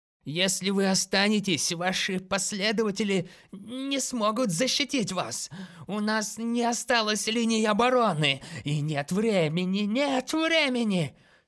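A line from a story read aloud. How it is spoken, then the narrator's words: Feverish mutter. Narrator (Russian): что-то лихорадочно бормоча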